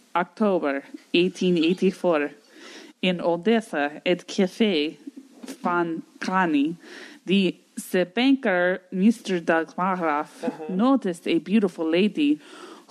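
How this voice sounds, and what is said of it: Put-on Russian accent. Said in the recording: “Yeah, do your best Russian act. Read the last sentence in your Russian accent ... And your Russian accent ... This is your best Russian accent?”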